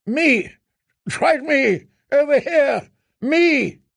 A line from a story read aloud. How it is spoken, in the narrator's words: Off to her right, Danny heard Barristan Selmy shouting